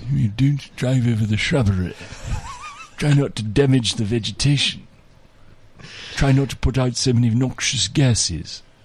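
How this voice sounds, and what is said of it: Polished English accent, Prince Charles impression. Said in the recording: “very polished English accent ... More like Prince Charles then.”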